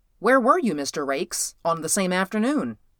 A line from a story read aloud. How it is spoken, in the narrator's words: The chairman leaned forward in his seat, looked the undersecretary full in the face, and said, quite sharply and suddenly